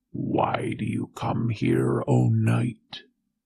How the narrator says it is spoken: said a growling voice from within

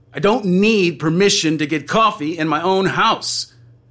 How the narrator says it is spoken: you shout

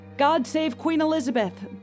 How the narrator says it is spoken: the frazzled executioner shouted

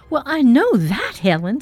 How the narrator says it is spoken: snapped Marjorie

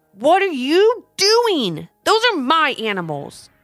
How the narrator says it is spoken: shouted Trap

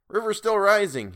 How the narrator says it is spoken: he cried

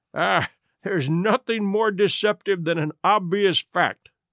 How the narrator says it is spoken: he answered, laughing

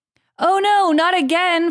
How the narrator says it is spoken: Frodo cried from deep within the dark cave

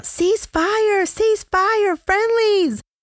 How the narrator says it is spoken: The two men frantically waved their arms and yelled out

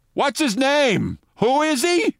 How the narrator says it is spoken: Rudy Giuliani, into a microphone that picked up everything he said, said loudly

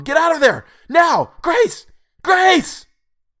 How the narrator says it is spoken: shouting into the phone

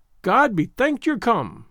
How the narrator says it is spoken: she cried

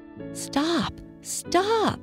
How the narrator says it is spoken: cried Daddy Longlegs

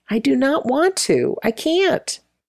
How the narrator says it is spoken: pleaded

